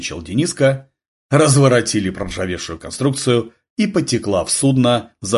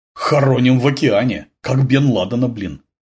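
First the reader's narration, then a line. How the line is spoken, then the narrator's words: Snort. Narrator (Russian): фыркнул Курьянов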